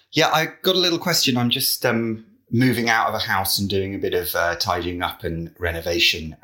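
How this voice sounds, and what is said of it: British accent. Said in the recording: “from the UK originally. You can probably tell by the accent.”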